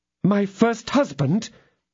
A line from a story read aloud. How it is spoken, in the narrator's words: exclaimed the lady